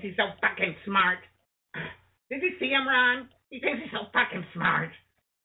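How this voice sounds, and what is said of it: Shrill impression of an older woman. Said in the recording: “That was a pretty good impression of my ex-wife's mother, Sandy ... that shrill, terrible sound”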